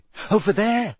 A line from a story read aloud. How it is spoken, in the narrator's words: said Hermione shakily